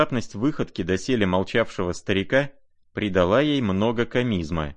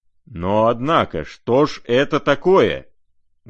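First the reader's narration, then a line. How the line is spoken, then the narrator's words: Sudden angry menacing exclamation. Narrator (Russian): грозно и внезапно воскликнул рассердившийся Арделеон Александрович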